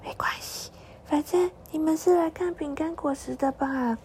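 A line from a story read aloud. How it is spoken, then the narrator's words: Very faint voice. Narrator (Chinese): 他的声音好小好小，只要风再强一点就听不到了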